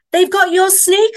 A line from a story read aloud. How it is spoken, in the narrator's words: shouted